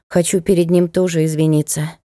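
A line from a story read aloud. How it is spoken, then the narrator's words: Sigh. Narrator (Russian): вздохнула она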